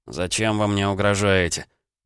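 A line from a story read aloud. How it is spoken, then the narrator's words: Muttering. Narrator (Russian): пробурчал Никита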